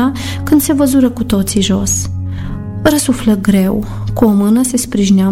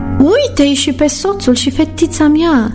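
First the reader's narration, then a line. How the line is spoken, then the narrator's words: Joyful exclamation. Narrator (Romanian): exclamă cu bucurie în glas Amalia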